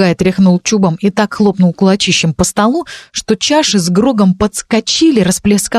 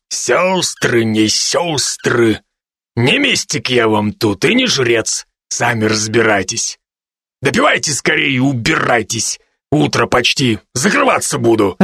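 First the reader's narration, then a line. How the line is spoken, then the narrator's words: Growling bear. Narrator (Russian): Рыкнул медведь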